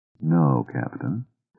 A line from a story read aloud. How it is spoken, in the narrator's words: the ship's explorer quietly said